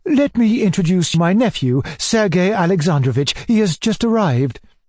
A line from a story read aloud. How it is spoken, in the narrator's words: cried my uncle